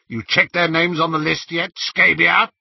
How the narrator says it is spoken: he roared

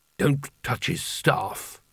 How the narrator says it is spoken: muttered Carding

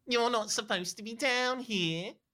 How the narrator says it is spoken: she whines

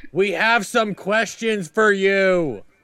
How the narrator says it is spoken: he yells back in your ear

